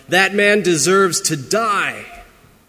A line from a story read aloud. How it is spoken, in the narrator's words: David was outraged by that rich man in the story, and he screamed out